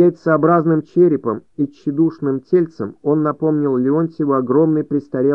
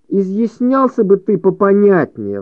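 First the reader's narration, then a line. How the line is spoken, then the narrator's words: Pleading. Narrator (Russian): взмолился Леонтьев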